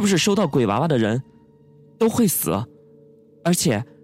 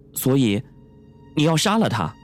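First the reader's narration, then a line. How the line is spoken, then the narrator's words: Cold. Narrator (Chinese): 宋小沫冷冷的说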